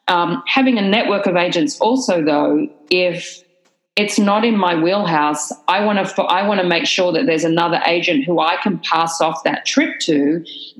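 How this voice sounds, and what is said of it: Strong Australian accent. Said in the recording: “my crazy accent and where I'm from, I get a lot of people sending me Australian trips”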